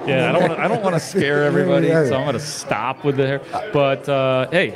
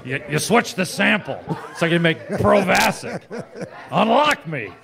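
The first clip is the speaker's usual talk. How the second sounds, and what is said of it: Imitates another person's voice. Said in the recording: “I like to do my impersonation ... Harrison Ford ... That's actually really good.”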